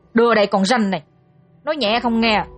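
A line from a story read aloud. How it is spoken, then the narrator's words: Hot-tempered shout. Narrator (Vietnamese): Một gã nóng nảy quát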